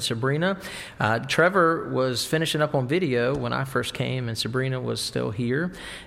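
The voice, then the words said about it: Southern American accent. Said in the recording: “my southern accent down here”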